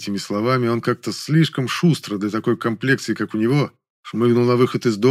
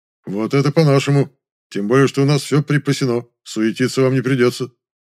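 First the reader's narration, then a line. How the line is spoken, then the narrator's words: Booming laugh, then speech. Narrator (Russian): Здоровяку, гулко хохотнув и сказав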